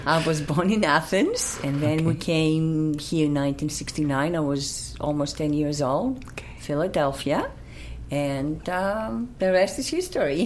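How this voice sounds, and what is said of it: Unusual Greek accent, fluent English. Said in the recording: “Your accent is very unusual because you speak beautifully English ... I am Greek.”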